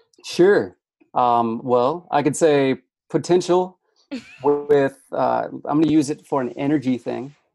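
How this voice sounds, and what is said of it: Midwestern American accent. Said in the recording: “that's my Midwest accent”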